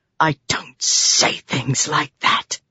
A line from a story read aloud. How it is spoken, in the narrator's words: she hissed